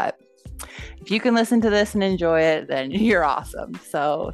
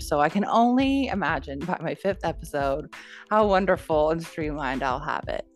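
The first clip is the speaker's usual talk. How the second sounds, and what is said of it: Sarcastic delivery. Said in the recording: “that was sarcasm”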